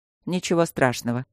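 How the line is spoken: Dry. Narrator (Russian): сухо ответил он

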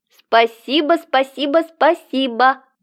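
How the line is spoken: Squeaky voice, then yelp. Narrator (Russian): пропищала и ойкнула

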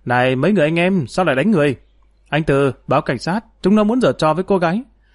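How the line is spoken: Urgent shout. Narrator (Vietnamese): vội chạy tới quát

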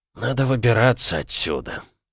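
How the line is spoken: Muttered. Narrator (Russian): пробормотал Олден

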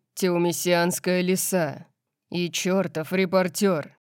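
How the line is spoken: Hissing. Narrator (Russian): прошипел он

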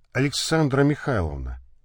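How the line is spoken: Quietly. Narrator (Russian): тихо сказал дальновид

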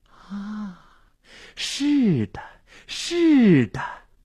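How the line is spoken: Entranced murmur. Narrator (Chinese): 心醉神迷的喃喃自语

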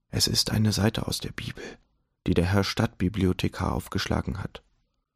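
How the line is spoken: Whispering. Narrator (German): flüsterte Daumer Herrn von Tucher zu

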